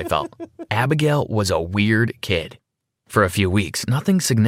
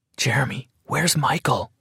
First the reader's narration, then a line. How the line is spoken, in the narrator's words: whispered while the teacher was still calling names